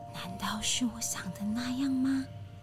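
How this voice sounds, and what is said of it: Quiet, hushed speech. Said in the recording (Chinese): “小声地说”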